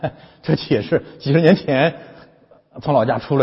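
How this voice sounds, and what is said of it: Usual voice. Nothing is said of it.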